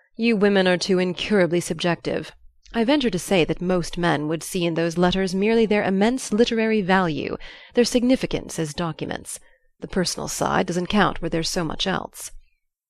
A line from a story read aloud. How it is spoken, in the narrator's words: Flamel said lazily